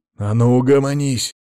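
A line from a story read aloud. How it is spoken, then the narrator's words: Growled. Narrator (Russian): зарычал он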